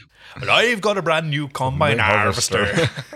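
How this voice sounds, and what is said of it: West Country Bristol farmer accent. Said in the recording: “Such a poor American accent that he just sounds like a farmer from Bristol”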